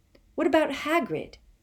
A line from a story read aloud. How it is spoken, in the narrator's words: Harry said angrily